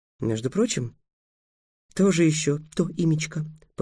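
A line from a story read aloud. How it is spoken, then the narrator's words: Muttered. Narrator (Russian): пробормотала Тиана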